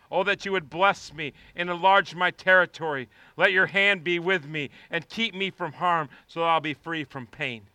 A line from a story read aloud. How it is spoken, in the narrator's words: Jabez cried out to the God of Israel